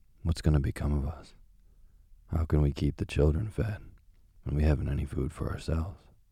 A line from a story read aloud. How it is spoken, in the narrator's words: worrying about their poverty, he sighed and said to his wife